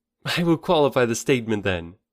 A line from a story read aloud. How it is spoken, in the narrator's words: answered with a laugh